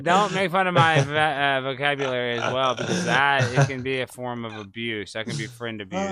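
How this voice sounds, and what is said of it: Slight Texas twang. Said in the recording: “I talk from Texas. I have a little bit of a Texas twang.”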